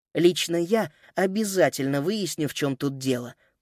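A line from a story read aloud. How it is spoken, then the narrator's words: Whisper. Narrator (Russian): прошептала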